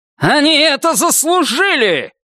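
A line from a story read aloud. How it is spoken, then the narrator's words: Shout. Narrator (Russian): крикнул он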